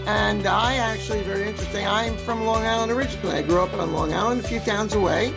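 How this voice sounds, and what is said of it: New York accent. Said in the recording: “we both have that terrible, well, I don't want to say terrible. We have that New York accent”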